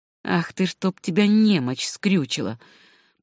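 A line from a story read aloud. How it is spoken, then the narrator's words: Muttered through teeth. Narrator (Russian): пробормотал фермер сквозь зубы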